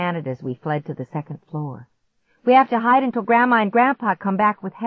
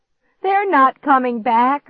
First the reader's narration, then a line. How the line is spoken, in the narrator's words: I screamed at him